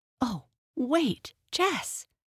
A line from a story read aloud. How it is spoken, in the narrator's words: cried the excited Amy